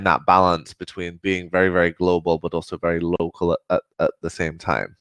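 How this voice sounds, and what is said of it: Mixed northern English and American accent. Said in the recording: “your accent sounds a bit Scottish and a bit Caribbean ... kind of West Midlands, north of England, borders accent meets the deep south of the US”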